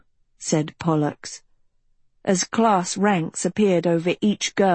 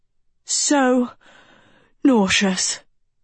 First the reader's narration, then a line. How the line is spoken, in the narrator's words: Dot panted like an overheated camel